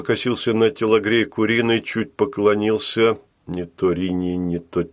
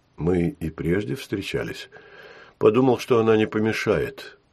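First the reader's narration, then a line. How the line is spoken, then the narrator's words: Calm. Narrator (Russian): ответил Долбушин спокойно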